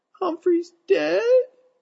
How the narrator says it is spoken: she sobbed

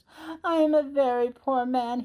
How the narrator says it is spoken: sobbed

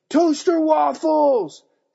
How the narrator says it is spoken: Dad yelled louder

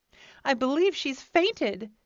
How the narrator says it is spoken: cried out a girl

